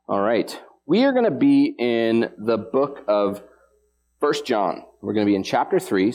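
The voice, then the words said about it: Hoarse, froggy voice. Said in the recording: “apologize for my voice. Uh, I am a little froggy sounding. Uh, I promise you it is just allergies.”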